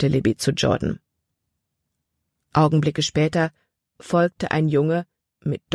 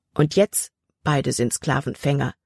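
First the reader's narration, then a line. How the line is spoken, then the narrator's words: Plain reply. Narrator (German): antwortete Jordan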